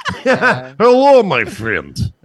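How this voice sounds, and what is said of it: Put-on Russian accent. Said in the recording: “this guy would have a Russian accent.”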